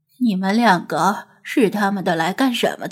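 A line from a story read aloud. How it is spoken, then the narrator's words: Tired, breathless, in English. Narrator (Chinese): 白人女子可能是骂累了，停下来喘了几口气，用英语问道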